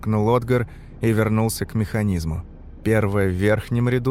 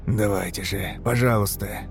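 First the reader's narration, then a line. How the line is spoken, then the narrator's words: Mouthed whisper. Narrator (Russian): прошептал одними губами Отгар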